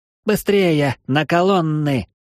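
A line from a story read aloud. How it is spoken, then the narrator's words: Shouted. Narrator (Russian): прокричал Эридани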